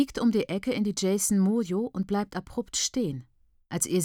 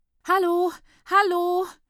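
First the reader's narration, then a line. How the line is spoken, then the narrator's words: High, frightened voice. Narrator (German): ruft eine hohe, ängstliche Stimme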